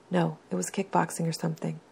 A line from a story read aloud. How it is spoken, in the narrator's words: Victor whispers